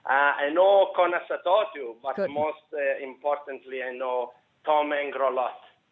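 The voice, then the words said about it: Irish words in Italian accent. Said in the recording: “Mangled Irish in an Italian accent still sounds romantic.”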